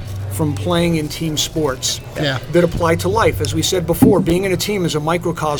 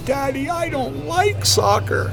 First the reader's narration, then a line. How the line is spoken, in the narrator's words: crying, sobbing